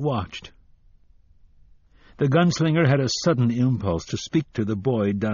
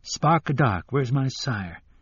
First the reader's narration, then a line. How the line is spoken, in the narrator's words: the boy murmured